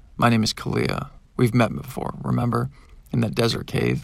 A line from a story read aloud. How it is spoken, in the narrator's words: I replied